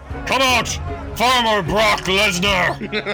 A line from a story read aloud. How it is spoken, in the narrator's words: he bellows